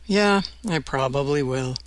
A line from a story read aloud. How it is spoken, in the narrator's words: Westervelt sighed, then replied